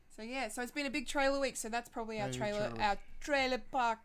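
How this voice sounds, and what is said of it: Mock posh voice. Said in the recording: “I'm making it sound posh, because trailer parks are not posh.”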